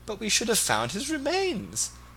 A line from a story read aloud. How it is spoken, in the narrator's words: sobbed Mrs